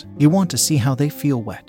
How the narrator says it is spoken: she asked

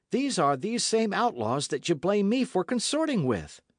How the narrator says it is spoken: cried Dick

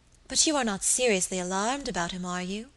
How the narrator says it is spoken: asked my lady anxiously

